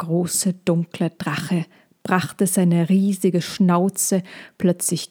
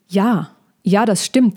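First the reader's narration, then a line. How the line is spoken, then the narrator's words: Calling out. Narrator (German): rief Molchi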